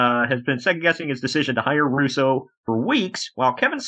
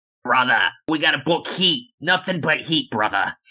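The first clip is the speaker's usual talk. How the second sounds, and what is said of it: Put-on Boston or New York accent. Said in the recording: “that Boston accent or that damn New York accent?”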